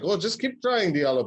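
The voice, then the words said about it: Put-on German accent. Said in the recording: “that was my best German accent”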